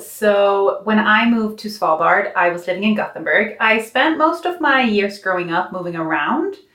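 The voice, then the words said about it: Slight Irish accent. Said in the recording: “you can hear a slight Irish accent”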